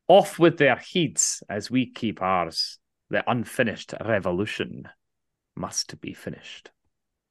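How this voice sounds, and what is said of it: Put-on accent. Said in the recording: “I'm going to do it in the accent, I think, most appropriate.”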